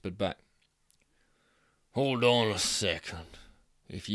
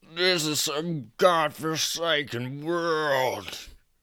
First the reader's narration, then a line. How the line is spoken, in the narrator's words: he moaned